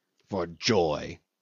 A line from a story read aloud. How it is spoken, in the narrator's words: snorted Cornelius